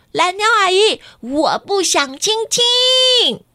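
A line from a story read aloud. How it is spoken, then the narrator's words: Very loud. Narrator (Chinese): 瑞希很大声的说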